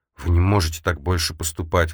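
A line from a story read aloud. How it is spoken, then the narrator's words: Strained, forced out. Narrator (Russian): выдавила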